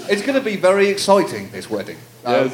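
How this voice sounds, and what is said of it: British accent. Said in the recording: “Do the accent again. ... Do the accent.”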